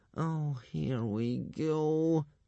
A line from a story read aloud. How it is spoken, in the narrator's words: moaned Hiccup to himself